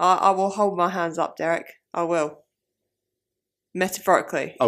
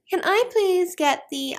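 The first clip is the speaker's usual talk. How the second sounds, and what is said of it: Raised high-pitched voice. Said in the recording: “my voice is probably up here.”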